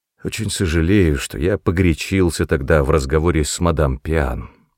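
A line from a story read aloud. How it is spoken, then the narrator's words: Plain. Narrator (Russian): сказал он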